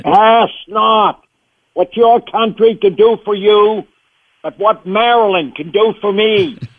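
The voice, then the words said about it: John F. Kennedy impression. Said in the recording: “Kennedy was the first voice I ever did”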